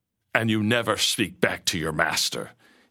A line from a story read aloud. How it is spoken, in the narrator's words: he growled through gritted teeth